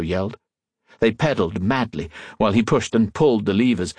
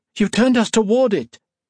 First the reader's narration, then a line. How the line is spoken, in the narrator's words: Colette cried